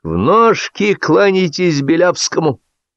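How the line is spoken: Shout. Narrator (Russian): закричал

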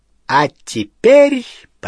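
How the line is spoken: Triumphant ringing proclamation. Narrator (Russian): победно звенящим голосом провозгласила

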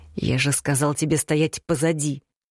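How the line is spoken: Growled rebuke. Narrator (Russian): рыкнул в мою сторону Маракьян

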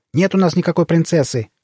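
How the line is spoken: Barked snap. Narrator (Russian): рявкнула она на пришельцев

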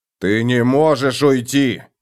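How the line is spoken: Barked. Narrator (Russian): рявкнул он

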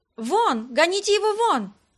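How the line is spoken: Women shouting. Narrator (Russian): кричали женщины

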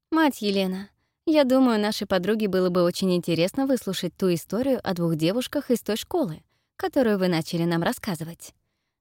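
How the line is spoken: Plain. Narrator (Russian): говорит Фелисити

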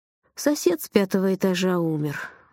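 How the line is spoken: Sad. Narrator (Russian): грустно сказал он

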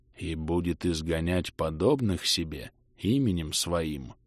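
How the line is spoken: Whispered repetition. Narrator (Russian): шепотом повторил

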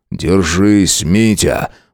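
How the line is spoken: Breathless exhale. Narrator (Russian): Выдохнул он

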